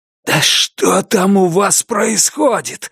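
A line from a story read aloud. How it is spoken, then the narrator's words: Furious hoarse hiss. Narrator (Russian): яростно просипел Генри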